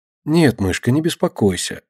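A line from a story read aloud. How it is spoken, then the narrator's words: Gentle, forced cheer. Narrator (Russian): ласково отвечает Катя, принуждая себя улыбнуться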